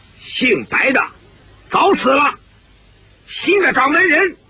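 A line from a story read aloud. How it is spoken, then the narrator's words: Loud voice. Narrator (Chinese): 姓廖的高声说道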